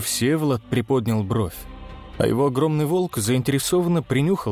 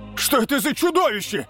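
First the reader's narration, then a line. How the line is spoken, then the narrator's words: Shouting in disbelief. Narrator (Russian): выкрикнул другой, не веря своим глазам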